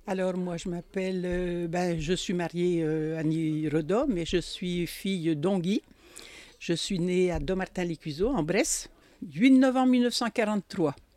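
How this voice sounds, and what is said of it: Jura regional French accent. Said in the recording (French): “l'accent jurassien”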